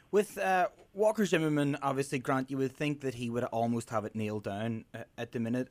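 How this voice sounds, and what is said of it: Northern Irish accent. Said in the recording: “if you can't tell by his accent ... He's from Belfast”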